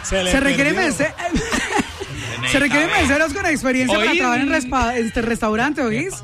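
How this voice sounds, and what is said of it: Attempted Cali Colombian accent. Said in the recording (Spanish): “ahora no encuentro el acento caleño”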